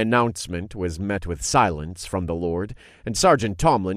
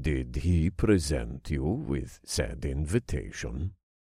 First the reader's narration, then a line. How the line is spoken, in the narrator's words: Lord Burchard asked in a calm voice